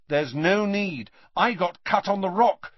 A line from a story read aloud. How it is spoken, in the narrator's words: said Harry firmly